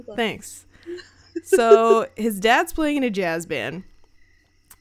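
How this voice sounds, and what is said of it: Usual voice. Nothing is said of it.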